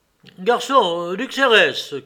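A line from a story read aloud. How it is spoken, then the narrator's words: Shouted. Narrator (French): cria Vronsky sans lui répondre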